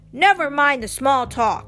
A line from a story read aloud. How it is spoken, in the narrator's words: growled